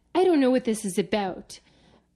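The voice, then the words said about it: Put-on Canadian accent. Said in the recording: “Your Canadian accent is on point.”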